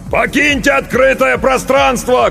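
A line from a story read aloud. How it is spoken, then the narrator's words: Shout. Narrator (Russian): крикнул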